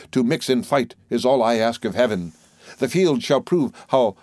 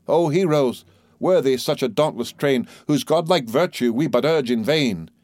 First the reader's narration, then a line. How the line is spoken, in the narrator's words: exclaimed the king